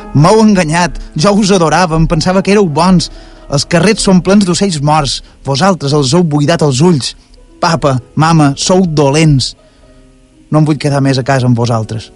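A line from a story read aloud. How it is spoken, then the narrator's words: Insistent shouting. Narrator (Catalan): Ell insistia cridant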